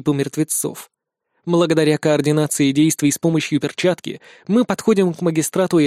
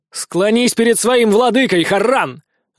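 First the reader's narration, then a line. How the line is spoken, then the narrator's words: Loud command. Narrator (Russian): громко приказываю я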